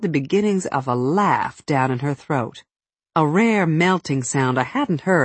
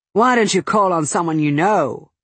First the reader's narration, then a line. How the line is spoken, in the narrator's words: she said in a scalding tone